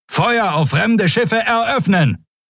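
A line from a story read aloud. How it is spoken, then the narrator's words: Calling out. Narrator (German): rief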